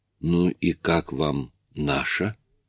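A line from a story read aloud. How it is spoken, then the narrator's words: Hoarse question. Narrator (Russian): хрипло спросил Карл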